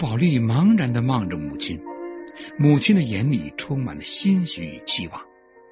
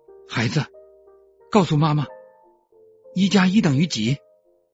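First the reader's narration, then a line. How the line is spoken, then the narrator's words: Overjoyed mother, trembling voice. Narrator (Chinese): 大喜过望，周母……声音颤抖的说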